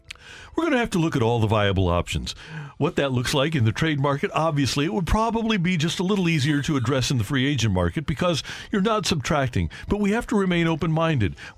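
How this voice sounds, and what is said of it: Convincing imitation of another person's voice. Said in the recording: “Was that like direct audio from John Mosley? ... that was a great voice impression. So, very, very good.”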